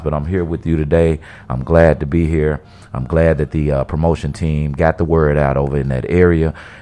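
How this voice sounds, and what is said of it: Worn-out, partly lost voice. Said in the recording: “My voice is kind of almost gone away a little bit, too, from the trip ... So my voice is a little bit compromised”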